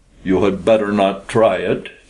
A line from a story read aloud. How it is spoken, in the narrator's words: said grimly